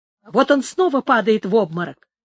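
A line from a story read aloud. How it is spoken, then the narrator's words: Exclaiming. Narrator (Russian): воскликнул Пригонеро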